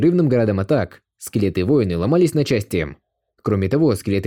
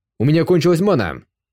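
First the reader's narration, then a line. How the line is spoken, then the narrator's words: Shout. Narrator (Russian): крикнул Илья Хуракан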